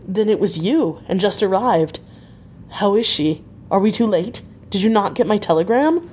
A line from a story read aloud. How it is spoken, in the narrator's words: he gasped out